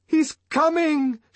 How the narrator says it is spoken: shouted Sarojini Engels

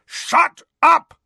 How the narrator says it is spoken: roared Uncle Vernon and Aunt Petunia in unison

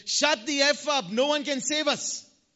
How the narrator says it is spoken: he shouted at me

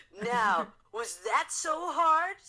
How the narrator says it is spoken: Sonic asked, a bit too excitedly

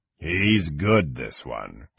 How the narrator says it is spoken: Kang muttered to himself

